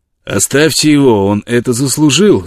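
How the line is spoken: Colonel's shout. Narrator (Russian): закричал полковник

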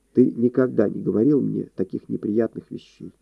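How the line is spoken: Unexpectedly calm. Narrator (Russian): сказала она ему неожиданно спокойно

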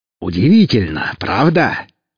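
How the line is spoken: Smiling exclamation. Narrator (Russian): воскликнул тот Велес, широко улыбнувшись

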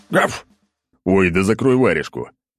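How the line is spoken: Growled. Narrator (Russian): рыкнул я

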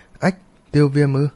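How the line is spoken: Frightened, stunned surprise. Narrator (Vietnamese): Sau khi sợ hãi than, Tuyết Ni đột nhiên sừng sốt, ngạc nhiên

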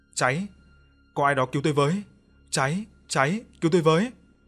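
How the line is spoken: Frantic screaming. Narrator (Vietnamese): Ông Tiến không ngừng la hét

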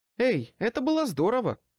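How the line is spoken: Exclaiming. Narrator (Russian): воскликнул Баттерс

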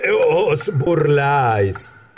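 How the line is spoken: Exclaimed. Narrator (Spanish): exclamó

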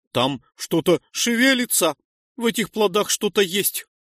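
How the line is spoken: Frightened. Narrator (Russian): испуганно объяснил высокий доходяга

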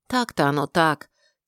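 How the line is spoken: Quiet sigh. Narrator (Russian): тихо вздохнула Тэ

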